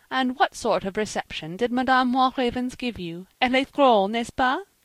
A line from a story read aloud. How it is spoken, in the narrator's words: began she, chuckling